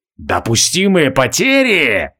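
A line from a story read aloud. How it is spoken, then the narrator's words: Terrible roar. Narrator (Russian): страшно взревел Тарай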